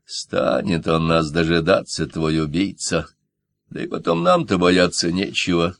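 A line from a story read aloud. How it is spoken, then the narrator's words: Sad. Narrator (Russian): грустно добавил Франсуа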